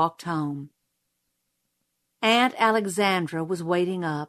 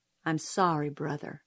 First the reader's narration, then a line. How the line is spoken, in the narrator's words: she murmured